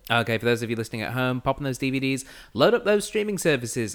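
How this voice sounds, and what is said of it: Speaks with a non-local accent. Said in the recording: “That's just very funny in your accent. That's lovely.”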